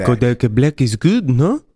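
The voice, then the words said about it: Put-on French accent. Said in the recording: “Good accent... We got a couple Frenchmen here.”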